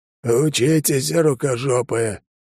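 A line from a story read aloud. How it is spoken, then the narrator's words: Cheerful hoarse croak. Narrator (Russian): он жизнерадостно прохрипел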